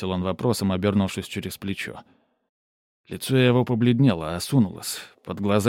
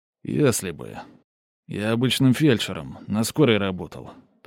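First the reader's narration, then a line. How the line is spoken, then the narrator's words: Confession. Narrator (Russian): признался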